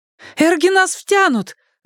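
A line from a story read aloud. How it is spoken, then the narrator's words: Shouted. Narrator (Russian): закричала Энея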